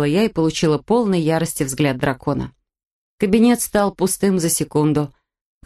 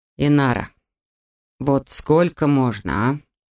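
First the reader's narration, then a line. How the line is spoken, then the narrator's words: Weary question. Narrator (Russian): Устало спросил Диаш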